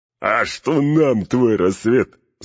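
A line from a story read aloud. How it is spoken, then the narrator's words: Laughing voices from below. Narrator (Russian): захохотали снизу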